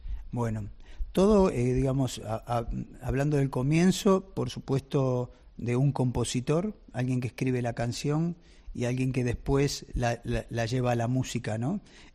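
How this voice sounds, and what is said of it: Argentine Spanish accent. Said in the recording (Spanish): “este precioso acento que tú tienes nos denota que vienes de Argentina”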